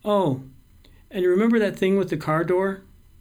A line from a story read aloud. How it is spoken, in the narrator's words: in the most casual voice possible, tosses out